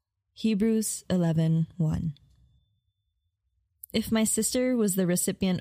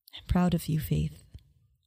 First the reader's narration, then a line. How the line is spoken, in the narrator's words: Mommy whispered